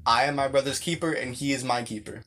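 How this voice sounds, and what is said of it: Louder, more emphatic speech. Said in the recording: “Please say it louder.”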